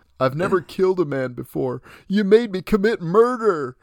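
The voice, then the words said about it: Bad imitation of another person's voice. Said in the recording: “That's my really bad Bill Paxton impression of this scene.”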